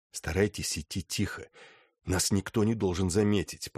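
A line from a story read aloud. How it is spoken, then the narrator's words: Whisper. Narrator (Russian): прошептал Тоннер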